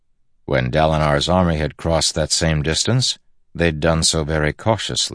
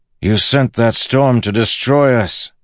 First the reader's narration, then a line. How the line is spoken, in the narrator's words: he shouted toward the clouds